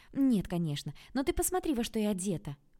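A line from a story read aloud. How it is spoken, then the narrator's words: Exclamation. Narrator (Russian): воскликнула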